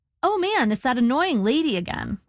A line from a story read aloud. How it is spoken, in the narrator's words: I said brightly, trying to diffuse the situation